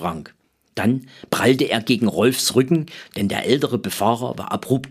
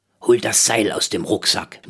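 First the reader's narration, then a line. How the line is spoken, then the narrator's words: Murmured. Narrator (German): murmelte Rolf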